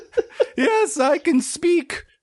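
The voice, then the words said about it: Put-on unicorn character voice. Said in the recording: “do a voice for a unicorn ... This is the best I can do for a horse.”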